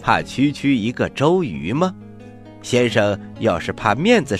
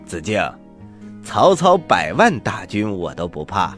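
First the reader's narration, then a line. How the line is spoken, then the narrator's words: Slight smile. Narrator (Chinese): 诸葛亮微微一笑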